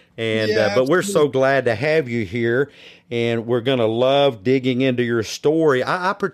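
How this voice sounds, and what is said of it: Slight Southern American accent. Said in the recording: “I have a bit of a Southern accent”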